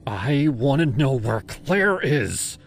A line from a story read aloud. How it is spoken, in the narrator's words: I said, my voice trembling with rage